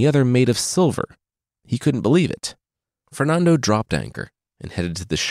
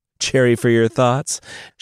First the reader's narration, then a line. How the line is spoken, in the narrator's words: asked with a chuckle